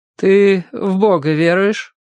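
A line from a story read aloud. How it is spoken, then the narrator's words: Hardened voice question. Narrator (Russian): затвердевшим голосом спросил брат Нефёд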